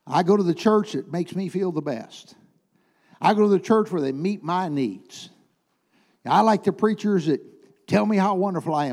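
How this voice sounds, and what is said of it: Sarcastic mocking delivery. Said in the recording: “I'm being sarcastic”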